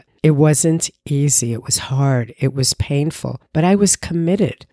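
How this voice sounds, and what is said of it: Impaired, not fully recovered voice. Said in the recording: “as you can hear, my voice is still not quite what it was”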